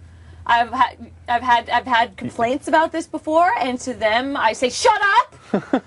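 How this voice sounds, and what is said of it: Loud, fast New York speech. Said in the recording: “why I'm shouting ... it's just how I talk ... I'm from New York ... We talk fast. We talk loud.”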